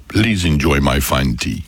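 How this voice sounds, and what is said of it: Impression of the Dilmah tea voice. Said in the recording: “your Dilmar T impersonation ... he actually thinks he does it really well ... he goes into Dilmar character mode”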